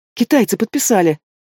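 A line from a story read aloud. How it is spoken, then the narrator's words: Joyful exclamation cut short. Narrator (Russian): Радостно восклицаю, осекаюсь на полуслове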